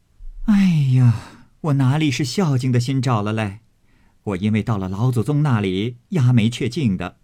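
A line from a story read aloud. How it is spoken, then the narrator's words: Laughing. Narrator (Chinese): 凤姐儿笑道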